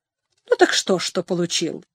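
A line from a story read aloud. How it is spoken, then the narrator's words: Sharp reply. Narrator (Russian): резко отозвался Хенчард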